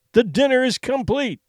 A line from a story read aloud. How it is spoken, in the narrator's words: he cried